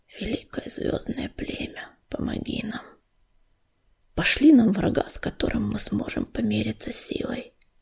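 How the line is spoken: Barely audible whisper. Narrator (Russian): звездный луч еле слышно прошептал

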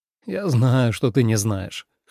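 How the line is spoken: Smirking snort. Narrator (Russian): хмыкнул Леннард

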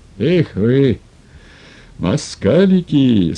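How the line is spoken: Satisfied, laughing. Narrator (Russian): сказал он и опять засмеялся, коротко, удовлетворенно

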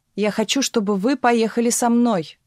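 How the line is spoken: Shouted. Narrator (Russian): крикнул барон

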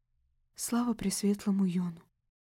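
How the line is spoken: Whispered. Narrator (Russian): прошептала я

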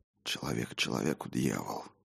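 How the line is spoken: Whispering. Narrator (Russian): шептал я

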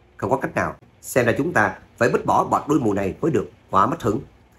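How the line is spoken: Light chuckle. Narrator (Vietnamese): Trác Phàm cười khẽ

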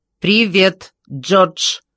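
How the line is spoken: Crisp, clipped. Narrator (Russian): отчеканил Космос

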